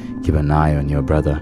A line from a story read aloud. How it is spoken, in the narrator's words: he just kissed the top of my head and whispered